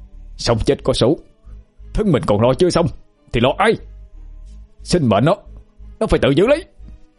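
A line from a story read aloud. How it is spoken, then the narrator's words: Hissing through clenched teeth. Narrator (Vietnamese): Duy nghiến răng ken két, nói rít lên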